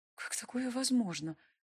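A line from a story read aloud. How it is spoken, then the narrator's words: Barely audible, to herself. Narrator (Russian): спросила себя, едва слышно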